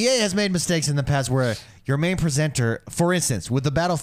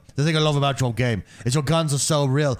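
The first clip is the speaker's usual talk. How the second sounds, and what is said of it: Bad imitation South African accent. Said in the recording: “That's terrible South African accent”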